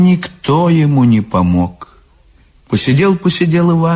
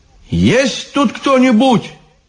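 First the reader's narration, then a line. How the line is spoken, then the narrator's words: Shouted. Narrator (Russian): крикнул Иван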